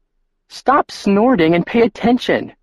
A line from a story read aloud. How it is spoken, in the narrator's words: she snapped